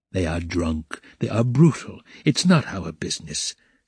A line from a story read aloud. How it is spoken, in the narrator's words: said his father